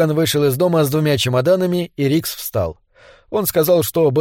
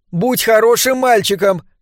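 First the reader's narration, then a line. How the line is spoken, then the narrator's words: Shouting woman. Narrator (Russian): крикнула ему миссис Бодейн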